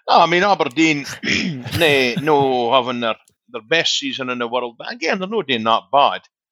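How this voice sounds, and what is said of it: Scottish Doric accent. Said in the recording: “I've got a Doric accent”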